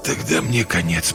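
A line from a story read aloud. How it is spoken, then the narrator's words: Whispered. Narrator (Russian): прошептал Дэви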